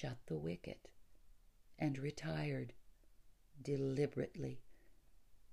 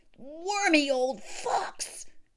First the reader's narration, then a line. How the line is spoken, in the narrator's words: cried